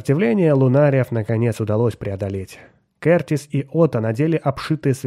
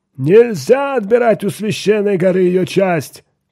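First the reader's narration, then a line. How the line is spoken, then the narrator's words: Old man shouting. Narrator (Russian): кричал старый Рэб Сел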